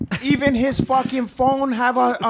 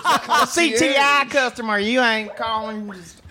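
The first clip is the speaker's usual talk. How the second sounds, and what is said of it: Put-on Southern American accent. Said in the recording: “southern accent”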